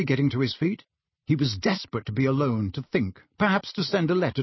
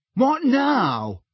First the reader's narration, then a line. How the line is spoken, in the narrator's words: said Harry impatiently